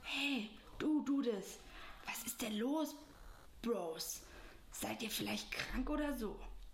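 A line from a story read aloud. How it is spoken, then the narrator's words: Whispering. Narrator (German): flüsterte er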